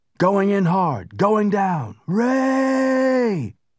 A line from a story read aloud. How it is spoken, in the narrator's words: Durant shouted into his radio